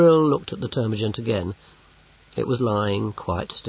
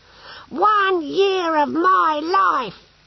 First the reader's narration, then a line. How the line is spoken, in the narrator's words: he shouted